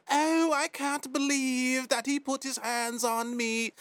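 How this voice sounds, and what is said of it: Mock British accent. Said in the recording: “went to England. with the accent.”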